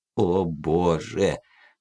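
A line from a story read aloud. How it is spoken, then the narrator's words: Bitter mutter. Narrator (Russian): горько пробормотал Миллер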